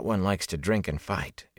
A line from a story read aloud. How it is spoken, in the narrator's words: Egwene murmured